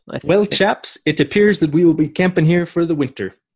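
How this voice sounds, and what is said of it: Poor British accent, sounds Irish. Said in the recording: “Maybe our listeners don't want to hear me do British ... it's kind of like Irish. ... It wasn't very good.”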